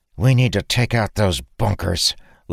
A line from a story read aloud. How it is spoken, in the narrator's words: Lyra growled